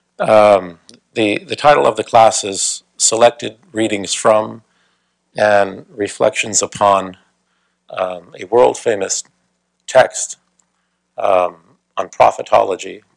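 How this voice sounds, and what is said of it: Rough, sick-sounding voice. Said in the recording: “Sorry about my voice, I'll do the best I can. Recovering from a cold.”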